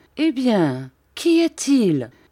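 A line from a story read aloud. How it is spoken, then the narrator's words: Shocked, alarmed cry. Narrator (French): s'écria en devenant blême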